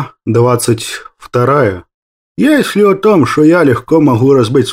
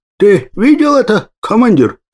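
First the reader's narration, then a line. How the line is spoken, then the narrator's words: Joyful boast. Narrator (Russian): радостно похвалился я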